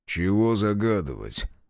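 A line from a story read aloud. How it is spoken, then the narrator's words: Grumbled. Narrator (Russian): буркнул Безнос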